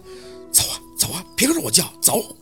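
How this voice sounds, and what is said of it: Quiet, hushed scolding. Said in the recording (Chinese): “小声的呵斥着他”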